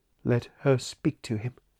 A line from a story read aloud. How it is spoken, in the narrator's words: said Gabriel in a dull voice